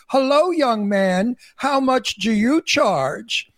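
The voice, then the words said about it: Affected voice of an old gay man. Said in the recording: “speak without a Brooklyn accent. I just sound like an old faggot... That's how the old queens in Palm Springs speak like this.”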